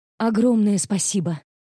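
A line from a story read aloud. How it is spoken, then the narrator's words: Breathless exhale. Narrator (Russian): выдохнула я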